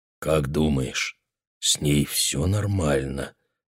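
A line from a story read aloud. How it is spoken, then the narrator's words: Gentle question. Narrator (Russian): мягко спросил Реймонд у Мэгги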